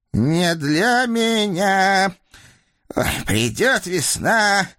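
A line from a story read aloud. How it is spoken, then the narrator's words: Hollow muffled voice. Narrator (Russian): глухим голосом начал Прохор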